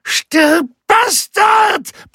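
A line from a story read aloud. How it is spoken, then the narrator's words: Roared. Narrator (German): brüllte der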